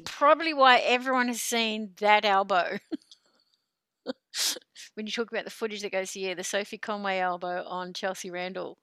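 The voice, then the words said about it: New Zealand accent. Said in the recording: “it's your accent, Kiwi.”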